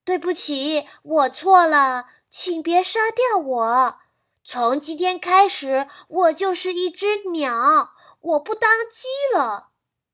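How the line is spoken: Urgent chirping cry. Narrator (Chinese): 阿基拉急切的啼叫声，仿佛是在说着

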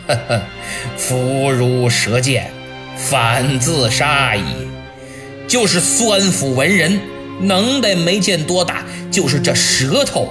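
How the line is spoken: Laughing. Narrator (Chinese): 曹操闻报后笑曰

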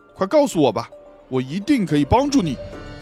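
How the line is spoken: Loud. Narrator (Chinese): X 神探大声地说

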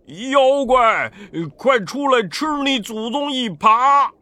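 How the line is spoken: Frustrated loud shouting. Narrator (Chinese): 八戒在河底一时找不着那妖怪，就一边大叫

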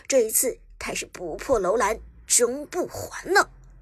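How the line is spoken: Deep, urgent call. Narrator (Chinese): Lucky 沉声喊道

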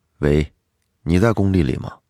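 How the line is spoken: Cold, over the phone. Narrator (Chinese): 电话里，刘强冷冷的说

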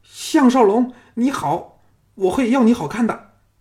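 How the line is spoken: Shrieking. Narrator (Chinese): 翠芝尖叫说

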